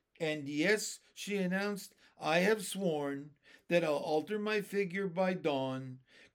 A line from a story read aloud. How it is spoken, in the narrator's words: cried the peach with a snigger